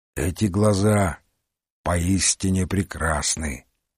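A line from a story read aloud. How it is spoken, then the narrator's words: Reverent tone. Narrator (Russian): сказал Марлоу благоговейным тоном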